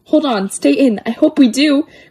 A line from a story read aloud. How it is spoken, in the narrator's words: cried Ickle Me, Pickle Me, Tickle Me Too